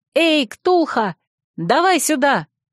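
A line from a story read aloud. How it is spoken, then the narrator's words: Shouted. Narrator (Russian): я крикнула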